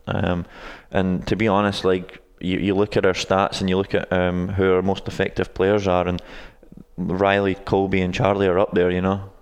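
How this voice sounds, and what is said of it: Scottish accent. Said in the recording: “anyone who's listening to this podcast can obviously tell that you're not from around here ... I don't think your accent is a South Ankeny accent.”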